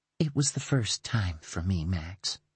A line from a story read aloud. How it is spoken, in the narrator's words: she whispered